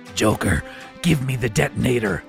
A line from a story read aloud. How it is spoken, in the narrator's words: demanded Batman in what he hoped was his most authoritative rasp